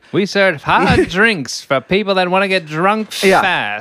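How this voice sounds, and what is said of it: Old-timey movie accent and cadence. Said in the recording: “the bartender from It's a Wonderful Life ... I don't know what that accent is ... It's old-timey movie talk ... Old-timey movie cadence”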